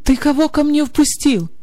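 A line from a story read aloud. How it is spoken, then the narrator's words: Shout. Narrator (Russian): закричал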